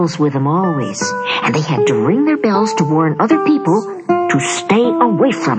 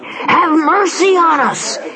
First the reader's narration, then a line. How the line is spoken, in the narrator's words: they cried